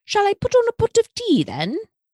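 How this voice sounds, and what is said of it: Prim British accent. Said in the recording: “slipping into a prim British accent”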